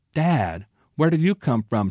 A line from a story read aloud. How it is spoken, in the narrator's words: she exclaimed